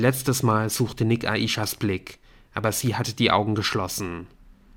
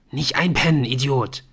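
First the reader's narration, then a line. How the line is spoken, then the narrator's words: Hiss. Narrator (German): zischte Colin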